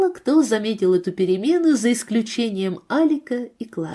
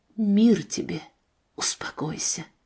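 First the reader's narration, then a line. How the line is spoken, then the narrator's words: Gentle whisper. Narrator (Russian): Спаситель прошептал усталому детскому сердцу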